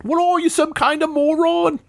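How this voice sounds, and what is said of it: Weak English accent, Gordon Ramsay impression. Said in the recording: “you can get away with a lot more when you have an English accent... That wasn't even an English accent.”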